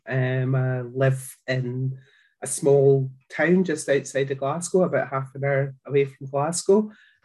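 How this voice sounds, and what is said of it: Scottish accent. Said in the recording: “you might have guessed by the accent that I'm from Scotland”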